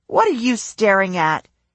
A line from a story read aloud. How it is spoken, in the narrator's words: snapped